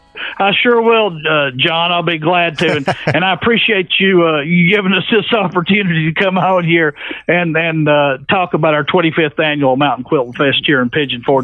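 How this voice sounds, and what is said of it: Authentic East Tennessee Southern accent. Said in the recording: “I don't think that's a fake accent you're having for us right now. It sounds like you're kind of authentic East Tennessee ... You're getting the original hillbilly accent here.”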